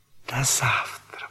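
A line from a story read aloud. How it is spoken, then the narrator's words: Whisper. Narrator (Russian): прошептала она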